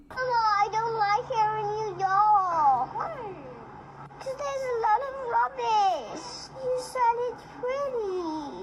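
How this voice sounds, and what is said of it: Little girl's accent. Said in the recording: “her accent's amazing. Like, yes. When you say rubbish as a little girl, yes, with that accent”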